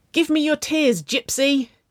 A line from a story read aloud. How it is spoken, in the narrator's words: Winona yelled